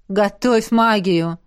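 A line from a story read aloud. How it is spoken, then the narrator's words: Smirking grunt. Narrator (Russian): хмыкнул император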